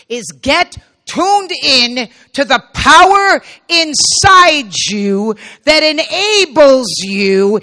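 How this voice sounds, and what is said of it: Raised, loud, emphatic voice. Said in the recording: “that's why I'm raising my voice,”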